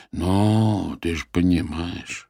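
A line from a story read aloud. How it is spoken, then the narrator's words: Drawn-out drawl. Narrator (Russian): протянул Геннадий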